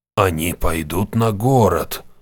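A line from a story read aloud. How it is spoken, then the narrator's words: Quiet female mage. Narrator (Russian): тихо произнесла мага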